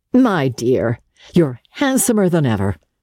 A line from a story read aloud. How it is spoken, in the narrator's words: Archer rejoined in the same tone